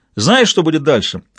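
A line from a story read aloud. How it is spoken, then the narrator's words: Yelling in face. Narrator (Russian): орал Айзея в лицо Кэндаллу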